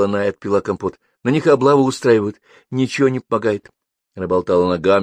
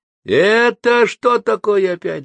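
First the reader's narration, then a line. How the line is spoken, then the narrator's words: Shouting woman. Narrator (Russian): закричала крашеная тетка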